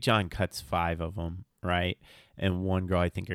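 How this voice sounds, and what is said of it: Usual voice. Nothing is said of it.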